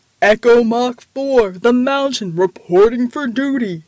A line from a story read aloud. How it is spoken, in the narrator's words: the giant roared